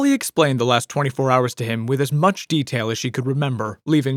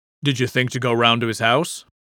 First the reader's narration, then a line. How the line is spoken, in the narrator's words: he asked